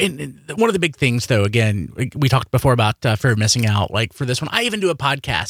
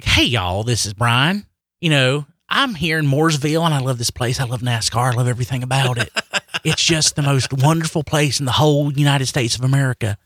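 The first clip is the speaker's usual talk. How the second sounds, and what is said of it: Put-on Southern accent. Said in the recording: “in character for like a Southerner ... the accent”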